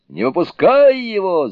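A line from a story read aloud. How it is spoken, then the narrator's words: Shout. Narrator (Russian): закричал Суню-кун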